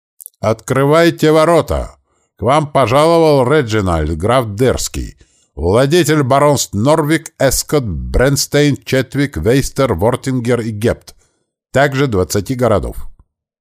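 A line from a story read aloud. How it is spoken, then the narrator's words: Loud proclamation. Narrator (Russian): он громко провозгласил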